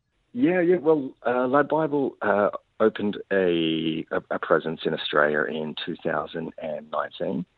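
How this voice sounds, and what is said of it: Australian English accent. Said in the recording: “you've got an Australian-English accent”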